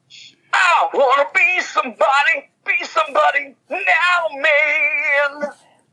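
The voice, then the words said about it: Imitates another person's singing voice. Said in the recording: “I want to do an imitation of Blackie Lawless”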